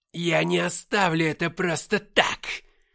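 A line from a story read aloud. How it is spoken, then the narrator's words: Barked. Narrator (Russian): рявкнул Корус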